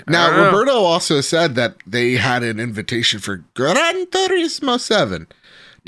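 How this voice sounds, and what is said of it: Speaks in a put-on accent. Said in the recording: “Don't know why I had that accent. That's offensive somewhere. Place the accent”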